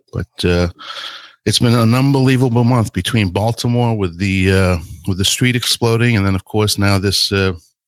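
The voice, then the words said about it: Crackly, rough voice. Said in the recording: “my voice is a little crackly beyond the internet”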